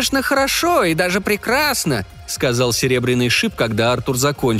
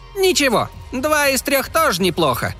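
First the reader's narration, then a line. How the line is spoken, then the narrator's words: Exclamation. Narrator (Russian): воскликнул Клякса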